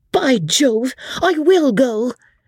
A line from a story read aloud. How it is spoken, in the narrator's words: screamed out George